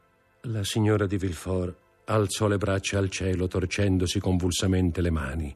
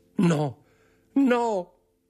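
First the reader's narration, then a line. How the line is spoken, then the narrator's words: Shouted. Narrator (Italian): gridò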